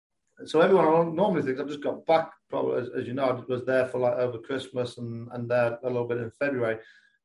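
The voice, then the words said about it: English accent. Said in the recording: “I haven't lost too much of the English accent, I don't think ... my accent's normally stronger when I come back”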